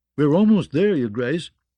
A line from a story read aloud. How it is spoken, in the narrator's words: Garin told Myrcella cheerfully